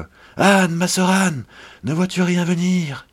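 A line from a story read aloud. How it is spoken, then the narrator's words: Hushed cry, woman. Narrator (French): lui répondit sa femme, et aussitôt elle criait tout bas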